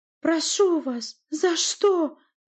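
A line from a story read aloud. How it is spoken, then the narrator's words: Pleading. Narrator (Russian): взмолился Наталья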